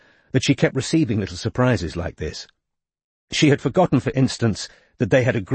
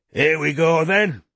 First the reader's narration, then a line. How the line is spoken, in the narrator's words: roared Geoffrey, who seemed to be enjoying the day more than anybody else